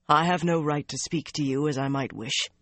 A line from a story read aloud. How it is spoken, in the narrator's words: he said stiffly